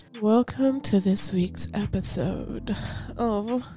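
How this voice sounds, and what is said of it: Low, sultry bedroom voice. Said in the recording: “bedroom voice”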